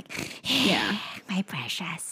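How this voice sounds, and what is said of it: Smeagol character voice impression. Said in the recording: “That was a good impression”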